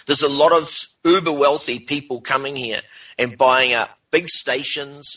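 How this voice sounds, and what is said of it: New Zealand accent. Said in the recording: “from New Zealand, in case you couldn't tell by the accent.”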